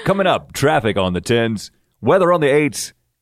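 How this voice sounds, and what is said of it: Radio DJ announcer voice. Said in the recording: “I'll go into the DJ voice”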